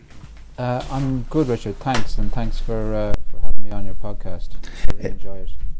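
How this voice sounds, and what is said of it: Irish accent. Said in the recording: “it's nice to hear that gorgeous accent ... I am from a place called Elphin ... which is in the Republic of Ireland, in the western part of the Republic of Ireland”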